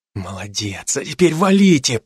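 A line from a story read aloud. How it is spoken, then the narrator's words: Whisper under breath. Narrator (Russian): прошептал я себе под нос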